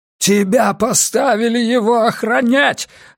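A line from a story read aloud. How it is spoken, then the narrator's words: Yelling through tears. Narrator (Russian): орал Симмонс, в глазах которого стояли слезы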